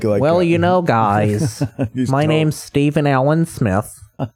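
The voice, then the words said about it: Put-on white guy voice. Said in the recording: “He probably talks like ... You know how black guys do the white guy voice? ... What if that's how Stephen A. Smith really talks?”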